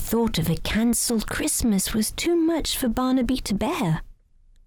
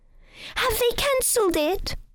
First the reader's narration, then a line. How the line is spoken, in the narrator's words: he cried